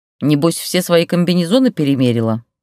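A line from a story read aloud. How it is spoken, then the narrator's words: Grumbling. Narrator (Russian): проворчала Штукина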